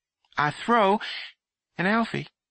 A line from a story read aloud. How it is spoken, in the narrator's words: he sighed